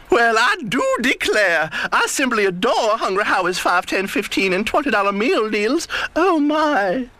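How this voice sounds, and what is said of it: Southern belle accent. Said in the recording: “A Southern Belle.”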